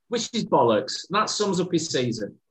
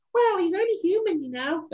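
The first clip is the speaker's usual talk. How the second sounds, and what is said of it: Impression of a footballer's girlfriend. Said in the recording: “there's my impersonation on. ... Another great impersonation”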